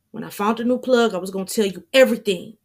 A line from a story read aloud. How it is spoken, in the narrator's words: Damien blurts out